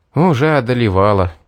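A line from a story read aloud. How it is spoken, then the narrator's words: Sigh. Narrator (Russian): вздохнул я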